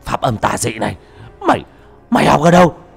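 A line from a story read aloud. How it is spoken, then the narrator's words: Frightened cry. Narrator (Vietnamese): Nó hoảng sợ kêu lên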